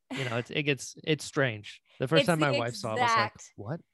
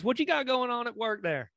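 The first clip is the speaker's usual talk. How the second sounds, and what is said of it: North Carolina Southern drawl. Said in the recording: “I'm from North Carolina originally... my accent comes out... the drawl comes out a little bit more than it should... we're all just talking to each other like this”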